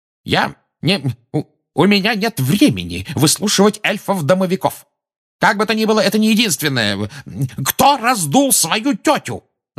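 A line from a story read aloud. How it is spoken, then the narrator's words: Yelling. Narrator (Russian): завопил Фадж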